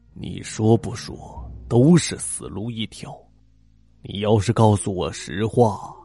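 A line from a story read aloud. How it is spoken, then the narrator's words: Lowered voice. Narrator (Chinese): 那人又压低了声音说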